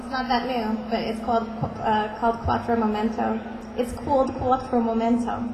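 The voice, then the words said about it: Sudden New York accent. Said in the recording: “Do you have a New York accent all of a sudden? ... all of a sudden, I'm all over the East Coast.”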